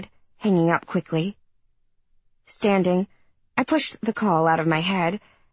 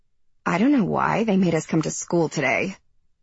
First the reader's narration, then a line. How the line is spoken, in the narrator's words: Libby sighed